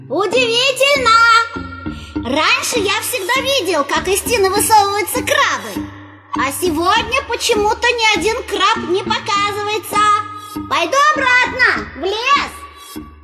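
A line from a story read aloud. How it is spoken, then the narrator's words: Loud calling out. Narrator (Russian): громко выкрикивать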